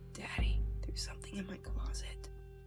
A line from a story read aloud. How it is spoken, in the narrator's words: she whispered